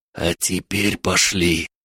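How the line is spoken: Whispered command. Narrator (Russian): шепотом скомандовал Эд

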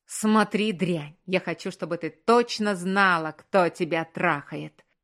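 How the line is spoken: Growling. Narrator (Russian): Прорычал он

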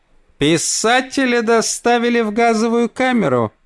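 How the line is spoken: Nasal voice. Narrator (Russian): прогнусавила Мэри Джордж

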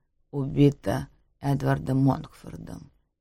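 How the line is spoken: Quiet. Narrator (Russian): тихо говорит он

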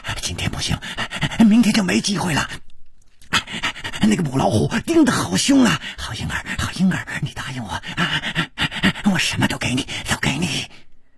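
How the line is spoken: Heavy panting. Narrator (Chinese): 师传宗的喘息声更粗了

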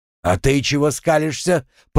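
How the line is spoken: Growled. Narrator (Russian): прорычал он

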